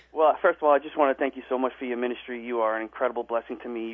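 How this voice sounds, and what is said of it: American East Coast accent. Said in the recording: “I'm East Coast, you know. ... Yeah, I can tell. You don't sound like a Southerner to me.”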